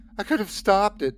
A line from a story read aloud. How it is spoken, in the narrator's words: I sobbed